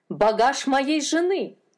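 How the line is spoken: Shouting. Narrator (Russian): закричал он

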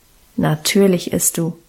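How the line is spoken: Calm, firm. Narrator (German): bestimmte Guste ruhig

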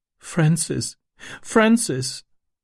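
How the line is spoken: Sobbing. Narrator (German): schluchzte sie

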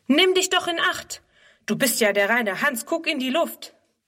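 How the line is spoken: Called out. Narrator (German): ruft er

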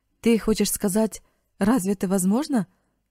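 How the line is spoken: Indignant exclamation. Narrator (Russian): воскликнул Марк, и лицо его вспыхнуло негодованием

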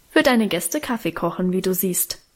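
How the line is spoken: Plain. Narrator (German): antwortete Guste

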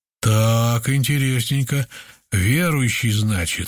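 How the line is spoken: Insinuating leader's question. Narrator (Russian): вожак вкрадчиво поинтересовался

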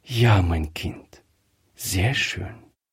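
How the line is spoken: Soft, quiet. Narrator (German): sagte Frau Griffier leise

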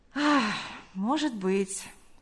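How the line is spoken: Sighing. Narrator (Russian): вздохнув, сказал он

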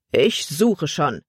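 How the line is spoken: Brisk voice. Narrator (German): sagte Ricks mit forscher Stimme

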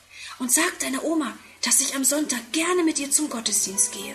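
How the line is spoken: Whispered. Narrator (German): sie flüstert

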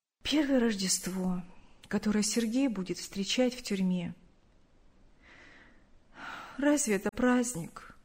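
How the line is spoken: Sad. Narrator (Russian): грустно сказала

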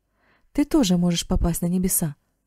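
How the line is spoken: Exclamation. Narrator (Russian): воскликнул Марк

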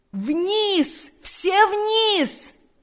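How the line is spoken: Loud shout over everything. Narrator (Russian): закричал генерал громким, язычным голосом, перекрывшим все звуки

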